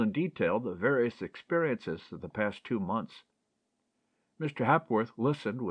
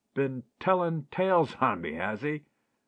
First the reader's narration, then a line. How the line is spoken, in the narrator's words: laughed Ted